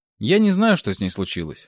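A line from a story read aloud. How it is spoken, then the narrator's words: Cold reply. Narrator (Russian): холодно ответила Юля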